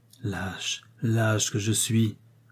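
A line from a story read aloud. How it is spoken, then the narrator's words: Murmured with muffled fury. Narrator (French): murmura-t-il d'un ton de sourde fureur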